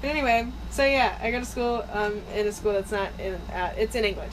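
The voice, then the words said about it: American accent. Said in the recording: “your voice and your accent and realize that you're from America”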